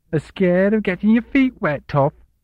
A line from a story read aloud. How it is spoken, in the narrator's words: she jeered